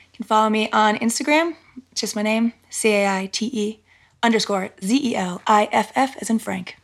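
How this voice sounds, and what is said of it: Polished radio announcer voice. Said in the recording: “you have a great radio voice.”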